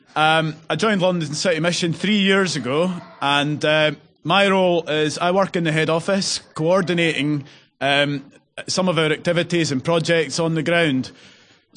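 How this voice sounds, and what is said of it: Scottish Edinburgh accent. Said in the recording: “You'll probably have gathered from my accent that I'm not London born and bred, from Edinburgh originally.”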